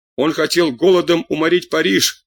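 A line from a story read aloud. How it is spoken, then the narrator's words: Crowd shouting. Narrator (Russian): кричали в толпе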